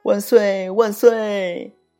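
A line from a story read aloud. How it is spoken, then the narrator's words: Crowd cheering. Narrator (Chinese): 大家也跟着叫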